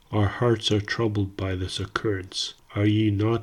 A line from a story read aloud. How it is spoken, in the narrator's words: asked